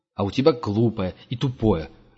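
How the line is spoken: Snapping retort. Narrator (Russian): огрызнулся Герман

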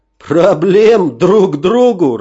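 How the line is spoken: Big man laughing. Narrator (Russian): рассмеялся бугай

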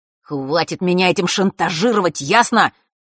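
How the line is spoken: Angry hiss. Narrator (Russian): разозленно прошипел он

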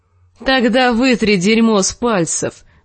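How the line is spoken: Dog laughing. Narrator (Russian): засмеялся пес

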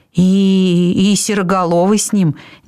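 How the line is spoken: Uncertain. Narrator (Russian): неуверенно добавил Пышка

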